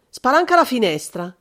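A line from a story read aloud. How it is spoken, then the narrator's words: Shouted. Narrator (Italian): De Vincenzi gridò subito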